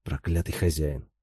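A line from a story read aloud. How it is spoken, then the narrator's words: Muttering. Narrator (Russian): пробормотал он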